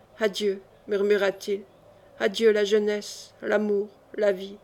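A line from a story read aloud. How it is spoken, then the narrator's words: Low voice, sighing. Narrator (French): Un soupir gonfla sa poitrine et à voix basse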